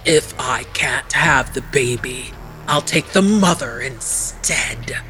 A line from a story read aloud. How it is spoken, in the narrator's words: Arpe hissed